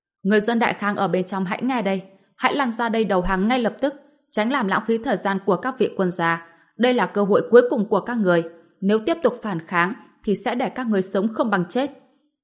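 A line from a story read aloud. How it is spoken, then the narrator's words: Shouting across distance. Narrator (Vietnamese): một trong hai quan phiên dịch viên hét về phía bến tàu bằng tiếng đại khang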